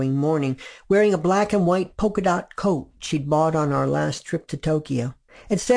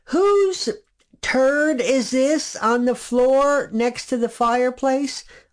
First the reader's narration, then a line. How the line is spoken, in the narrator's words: called out